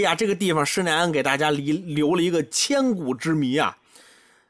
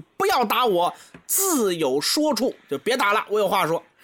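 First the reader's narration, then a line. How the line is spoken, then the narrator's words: Desperate shout. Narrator (Chinese): 眼看这棍子就要落下来了，林冲大喊一句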